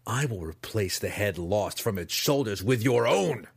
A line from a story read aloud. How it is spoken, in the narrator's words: he spat, sincerity dripping from the false words